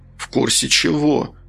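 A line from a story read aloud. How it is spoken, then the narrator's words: Tired question. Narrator (Russian): усталым голосом спросил Сергей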